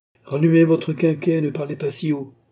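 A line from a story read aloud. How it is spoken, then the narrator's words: Cold, in good French. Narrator (French): lui dit froidement et en bon français le Portugais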